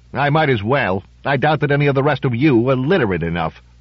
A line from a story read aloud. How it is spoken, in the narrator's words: Reuben snorted loudly and said with only his normal supply of grumpiness